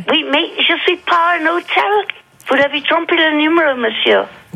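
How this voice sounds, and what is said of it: Chinese-accented French. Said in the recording (French): “elle a un accent chinois”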